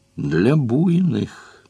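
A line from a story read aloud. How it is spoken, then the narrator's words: Thoughtful. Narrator (Russian): говорит санитар и добавляет задумчиво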